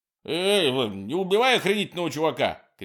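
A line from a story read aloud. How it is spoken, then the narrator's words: Shouting. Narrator (Russian): кричал Курт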